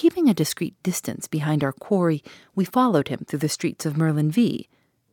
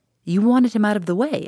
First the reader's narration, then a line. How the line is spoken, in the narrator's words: I exclaimed